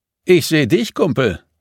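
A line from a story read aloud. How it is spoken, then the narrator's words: Call. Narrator (German): rief Kathi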